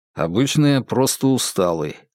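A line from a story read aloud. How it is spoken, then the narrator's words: Snorting reply. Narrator (Russian): хмыкнул в ответ Феликс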